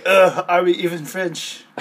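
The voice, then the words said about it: Mock French-like accent. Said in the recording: “Even though that's not a French accent.”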